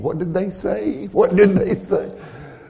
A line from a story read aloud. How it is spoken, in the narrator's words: asking